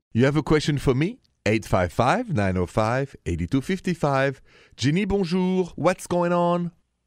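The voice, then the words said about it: Warm English accent. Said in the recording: “it's so nice to hear your accent because it's so warming. It makes you feel ... like ... English.”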